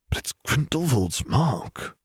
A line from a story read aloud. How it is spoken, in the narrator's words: Nev whispered